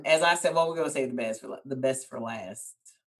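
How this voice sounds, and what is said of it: Southern country accent. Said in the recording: “Y'all heard that country accent she said? ... I can only sound like I'm from the South”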